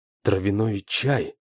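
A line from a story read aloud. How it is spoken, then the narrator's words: Barely audible reply. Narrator (Russian): еле слышно ответил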